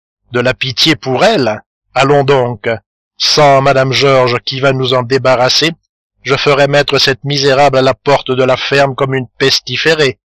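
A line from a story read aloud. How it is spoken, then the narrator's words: Harsh. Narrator (French): répondit durement Madame Dubreuil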